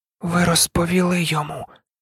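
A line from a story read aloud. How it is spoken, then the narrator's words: Boy's whisper. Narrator (Ukrainian): прошепотів хлопчик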